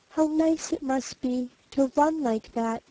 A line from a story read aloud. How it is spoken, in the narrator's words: he said softly